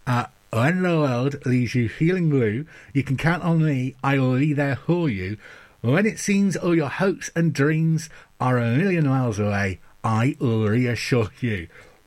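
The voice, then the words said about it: Mumbled singing with mouth wedged open. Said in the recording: “I'm mumbling my way through ... Let me wedge my mouth open.”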